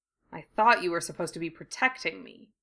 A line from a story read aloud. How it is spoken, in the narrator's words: Harry muttered